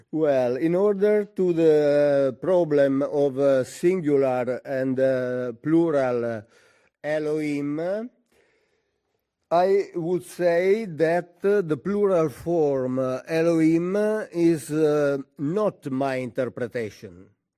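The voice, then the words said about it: Italian accent in English. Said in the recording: “I want to apologize for my English, which is very basic. ... the Italian accent.”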